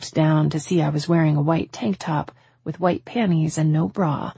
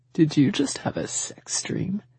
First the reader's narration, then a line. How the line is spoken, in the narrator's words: He started chuckling, covering his mouth with his hand